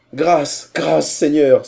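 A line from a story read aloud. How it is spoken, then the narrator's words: Terrified pleading cry. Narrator (French): s'écria Haider, qui s'attendait à être empalé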